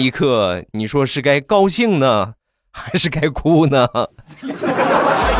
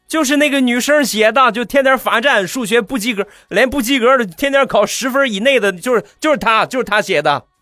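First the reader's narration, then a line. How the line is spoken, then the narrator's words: Classmates shouting. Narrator (Chinese): 班里的同学……大喊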